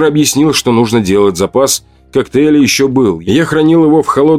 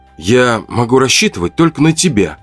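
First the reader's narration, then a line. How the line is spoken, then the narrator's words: Soft, gentle. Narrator (Russian): мягко сказал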